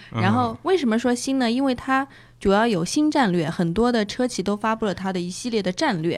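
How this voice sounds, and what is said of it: Southern Chinese accent in Mandarin. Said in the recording (Chinese): “我这个南方人口音发的那个新前后鼻音分不分得出”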